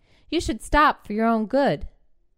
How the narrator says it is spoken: Melting in shorts and sports bra, she'd shouted at the old man

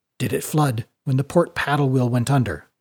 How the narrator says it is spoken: said quietly in Sjalfstiri

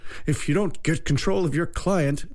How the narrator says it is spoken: said the judge, his voice quavering with fear

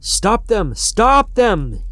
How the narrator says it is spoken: he would shout

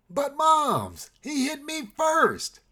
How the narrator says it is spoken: shouted with righteous indignation

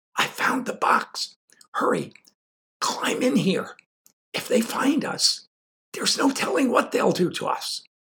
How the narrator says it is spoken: whispered Larry

